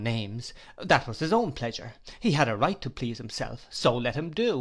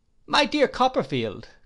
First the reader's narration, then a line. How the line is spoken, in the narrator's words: cried Traddles